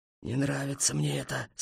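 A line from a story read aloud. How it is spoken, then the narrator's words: Sad. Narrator (Russian): сказал хмель печально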